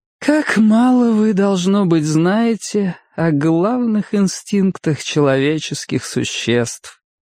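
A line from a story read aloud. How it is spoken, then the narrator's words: Wistful drawl. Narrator (Russian): тоскливо протянула она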